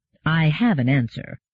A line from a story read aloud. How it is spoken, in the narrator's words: said Mandamus